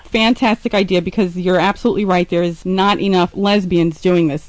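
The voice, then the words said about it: New York accent, Philadelphia-like. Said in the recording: “I like your accent, too. I love it. ... you sound a little bit like you're from Philadelphia ... born in Manhattan and then raised in the Bronx. Bronx, New York.”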